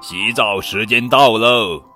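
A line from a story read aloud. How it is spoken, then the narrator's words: Father shouting. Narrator (Chinese): 猪爸爸的喊声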